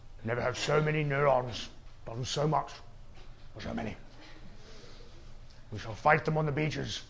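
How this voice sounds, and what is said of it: Winston Churchill impression. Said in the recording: “he spoke just like Winston Churchill ... my Winston Churchill impression”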